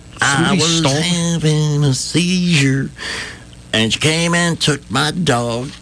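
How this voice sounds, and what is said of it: Country-song twang delivery. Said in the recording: “That's a country song ... Twang, twang, twang.”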